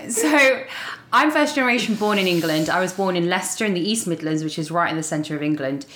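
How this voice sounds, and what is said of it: English accent. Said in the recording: “obviously you have an accent... You're not from Texas”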